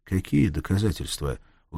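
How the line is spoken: Weary question. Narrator (Russian): устало спросил Махмуд

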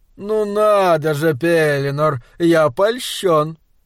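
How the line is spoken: Purring. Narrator (Russian): промурлыкал Кернс

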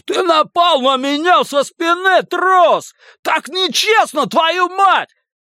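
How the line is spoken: Roared. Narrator (Russian): Лось проревев

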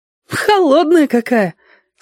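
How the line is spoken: Laughing. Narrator (Russian): засмеялась

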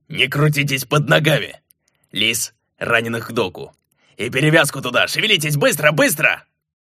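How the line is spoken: Growled, boatswain. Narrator (Russian): Пузатый боцман в полинявшей тельняшке и с лохматыми рыжими бакенбардами рыкнул

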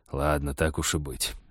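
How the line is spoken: Reluctant, through teeth. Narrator (Russian): нехотя процедил он

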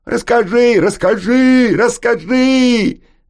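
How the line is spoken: Excited children shouting. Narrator (Russian): запрыгали и закричали дети

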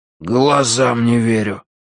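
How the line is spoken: Breathless exhale. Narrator (Russian): выдохнул Виталя

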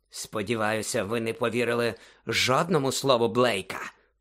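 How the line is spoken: Hissed. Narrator (Ukrainian): просичав Снейп

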